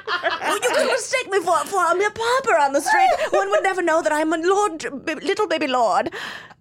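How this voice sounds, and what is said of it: Imitated voice of a posh lord. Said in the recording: “His voice. ... This is my impression. This is... Robert Pembroke Jr.”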